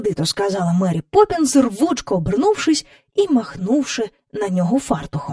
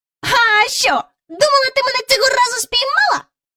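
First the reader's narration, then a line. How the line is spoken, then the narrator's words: Mocking shout. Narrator (Ukrainian): насмішкувато крикнув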